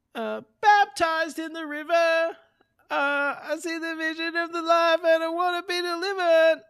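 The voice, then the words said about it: Sung imitation of a rock singer. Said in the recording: “That was a good impression.”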